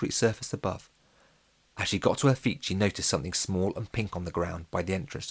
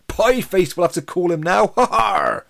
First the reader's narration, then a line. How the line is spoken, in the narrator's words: Horace said, laughing at his own joke